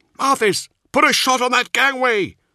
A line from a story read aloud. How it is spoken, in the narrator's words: Nemiel yelled